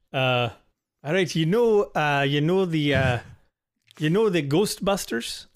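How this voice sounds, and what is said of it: Poor put-on Irish accent. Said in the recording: “Irish accents are optional. ... terrible. ... this accent of yours.”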